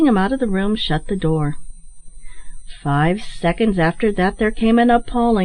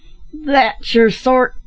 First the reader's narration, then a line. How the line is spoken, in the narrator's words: cried Bill in ecstatic glee